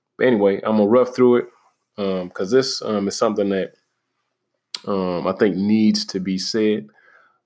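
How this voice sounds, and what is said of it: Slightly shaky voice. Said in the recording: “my voice is a little shaky ... I caught the flu”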